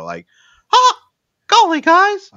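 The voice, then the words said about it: Mickey Mouse cartoon voice. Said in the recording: “I can do probably Mickey Mouse a bit ... talking like Mickey”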